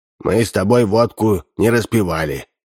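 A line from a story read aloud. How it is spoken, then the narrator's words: Stern. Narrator (Russian): строго сказал он коту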